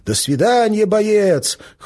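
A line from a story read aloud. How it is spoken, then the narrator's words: Shouting in chorus. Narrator (Russian): хором кричали они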